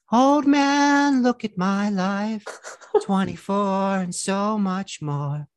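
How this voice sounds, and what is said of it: Sung impression of another singer's voice. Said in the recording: “I do a Neil Young impersonation ... That's pretty good ... That was very good.”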